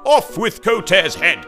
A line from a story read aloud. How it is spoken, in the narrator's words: they screamed